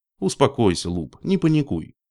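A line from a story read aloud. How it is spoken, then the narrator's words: Calm. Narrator (Russian): спокойно проговорил Роб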